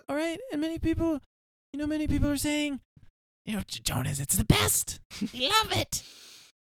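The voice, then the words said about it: Imitates another person's voice. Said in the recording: “your Trump impression ... I'll do my Trump impression”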